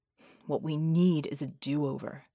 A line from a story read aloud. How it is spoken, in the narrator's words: he muttered